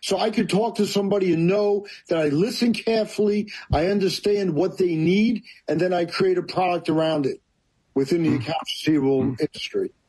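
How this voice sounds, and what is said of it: New York accent. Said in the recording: “I'm loving the New York accent.”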